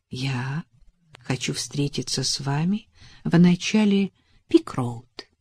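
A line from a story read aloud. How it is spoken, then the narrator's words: Soft. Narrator (Russian): мягко сказал он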